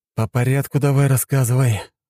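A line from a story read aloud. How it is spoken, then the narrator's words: Sigh. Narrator (Russian): вздохнул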